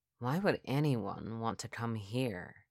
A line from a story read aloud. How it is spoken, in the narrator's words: I whispered